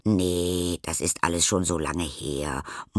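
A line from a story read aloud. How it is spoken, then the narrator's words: Old woman muttering. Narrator (German): murmelt Oma Augustine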